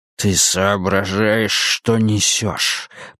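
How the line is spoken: Hissing. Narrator (Russian): прошипел он

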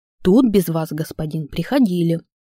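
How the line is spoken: Calm respectful report-like. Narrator (Russian): произнес так спокойно и почтительно, словно докладывал

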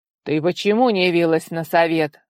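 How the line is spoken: Father barking. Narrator (Russian): гаркнул отец

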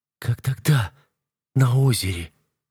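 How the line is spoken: Choked exhale. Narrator (Russian): Сдавленно выдыхает она

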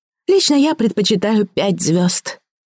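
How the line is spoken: Dreamy sigh. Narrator (Russian): мечтательно вздохнула Мария

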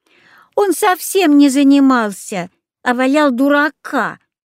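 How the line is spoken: Snide interjection. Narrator (Russian): ехидно вставила Катька

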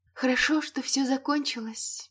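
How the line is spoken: Quiet. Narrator (Russian): тихо произнесла Элейн

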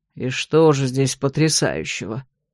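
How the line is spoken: Grumbled. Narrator (Russian): проворчал Владимир Викентьевич

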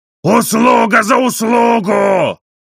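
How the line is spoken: Shouting. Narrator (Russian): крикнул англичанин

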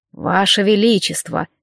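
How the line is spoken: Soft male voice. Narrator (Russian): мягко произнес мужчина

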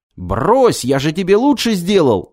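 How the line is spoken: Yelling. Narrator (Russian): завопил он

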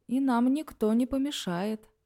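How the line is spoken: Purr. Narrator (Russian): мурлыкая произнес он

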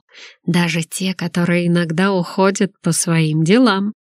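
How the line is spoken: Declared. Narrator (Russian): заявил Артур

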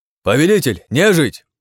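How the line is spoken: Shouted. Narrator (Russian): крикнул Вадим

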